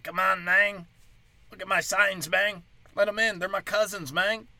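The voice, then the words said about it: Put-on comedic accent. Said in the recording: “I like all the accents I just did... They were dead on.”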